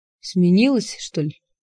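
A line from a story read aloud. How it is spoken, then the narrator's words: Gloomy question. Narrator (Russian): мрачно спросил он меня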